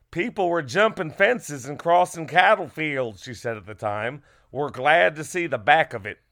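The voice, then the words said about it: Put-on American Southern accent. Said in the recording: “that's a fine accent. My mother's Southern. It's not offensive ... I didn't feel like doing a British accent.”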